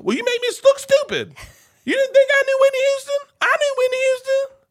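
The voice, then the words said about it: Exaggerated redneck accent imitating wife. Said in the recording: “My wife's not that redneck. ... There's truth in my wife's accent. But I make it a little worse.”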